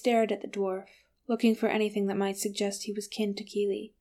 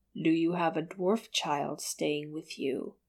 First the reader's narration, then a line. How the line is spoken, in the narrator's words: His voice was not kind